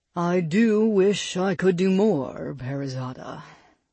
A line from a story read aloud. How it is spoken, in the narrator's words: the djinn sighed